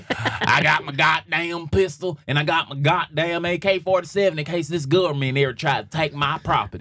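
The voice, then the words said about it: Put-on Southern US accent. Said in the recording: “I'm mimicking a fucking Southerner, not a white Southerner, just a Southerner”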